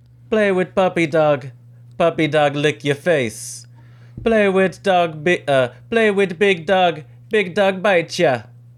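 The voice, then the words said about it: Put-on Jamaican accent. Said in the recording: “I want to hear you do a Jamaican accent. ... I thought that was not bad. ... That was okay. That was all right.”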